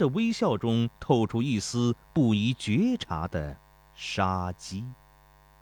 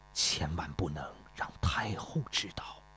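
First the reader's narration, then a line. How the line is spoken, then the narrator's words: Low, instructing. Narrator (Chinese): 太子低声嘱咐焦师说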